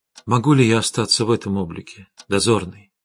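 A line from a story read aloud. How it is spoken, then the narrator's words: Quiet question. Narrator (Russian): тихо спросила Арина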